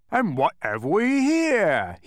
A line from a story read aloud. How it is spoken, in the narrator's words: he roared, licking his lips